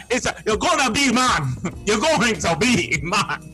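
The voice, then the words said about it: Awkward attempt at another person's accent. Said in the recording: “I wish I could speak in your accent so you could feel me a little bit more ... I don't know what I was doing there.”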